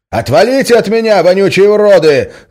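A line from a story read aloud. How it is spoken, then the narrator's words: Yelling. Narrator (Russian): заорал он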